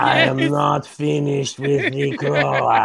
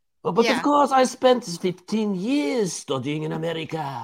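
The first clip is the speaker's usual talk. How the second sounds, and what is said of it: Put-on French accent. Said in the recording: “some funny accents? ... he's so going to pull out more accents that all sound exactly like French.”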